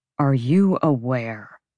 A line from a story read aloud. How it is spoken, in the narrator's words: Hunt said, his voice a low rasp